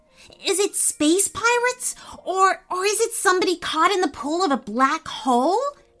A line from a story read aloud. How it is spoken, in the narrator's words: asked Bodhi eagerly